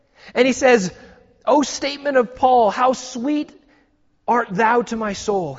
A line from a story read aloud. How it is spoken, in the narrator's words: he exclaimed